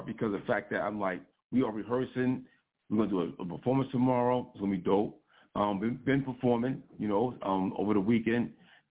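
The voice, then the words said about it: Slightly hoarse, rough voice. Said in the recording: “My voice is a little bit charred”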